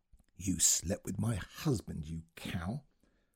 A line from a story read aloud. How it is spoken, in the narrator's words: whispered into her ear